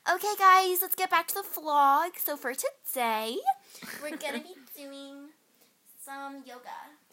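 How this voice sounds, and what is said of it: White girl YouTuber voice. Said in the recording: “That voice, I can't... It's my white girl voice. My white girl, like, YouTuber”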